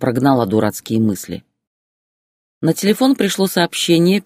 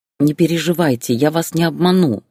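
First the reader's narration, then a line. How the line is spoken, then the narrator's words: Plain. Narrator (Russian): ответила она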